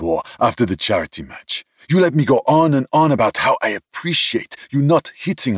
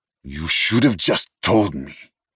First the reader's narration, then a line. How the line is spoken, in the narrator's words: Vincent growled